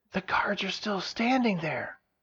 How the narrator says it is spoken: she whispered in surprise

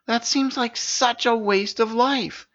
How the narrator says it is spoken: exclaimed Sin

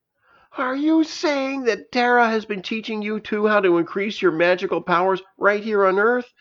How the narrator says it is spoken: shouted before guiltily

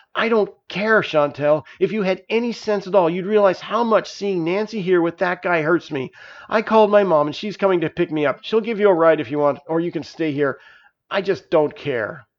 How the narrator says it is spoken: snapped

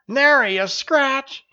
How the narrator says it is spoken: he yelled

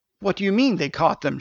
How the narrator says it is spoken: she cried

